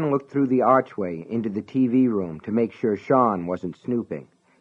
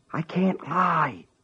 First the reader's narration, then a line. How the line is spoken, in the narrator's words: he whispered into the telephone